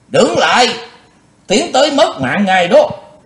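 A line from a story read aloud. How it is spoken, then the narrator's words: Sharp shout. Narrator (Vietnamese): có tiếng quát vàng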